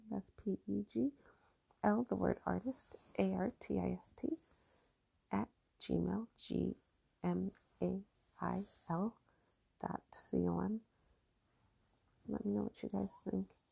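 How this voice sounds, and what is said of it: Whispering. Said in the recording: “I'm whispering because I'm laying right next to the baby”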